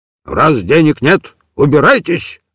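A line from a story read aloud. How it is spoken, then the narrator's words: Gruff old man's bark. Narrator (Russian): рявкнул старый Явурок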